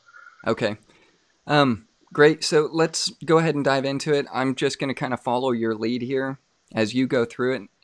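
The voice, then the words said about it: Strained, fading hoarse voice. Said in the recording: “I'm losing my voice tonight”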